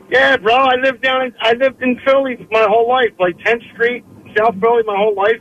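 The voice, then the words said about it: South Philly accent. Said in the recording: “I hear it in your voice. I was like, oh, this kid's from South Philly.”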